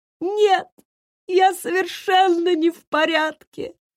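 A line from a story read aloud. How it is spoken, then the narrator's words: Sobbing. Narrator (Russian): прорыдал он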